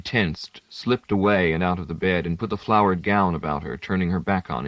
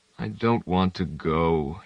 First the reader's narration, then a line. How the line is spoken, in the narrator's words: groaned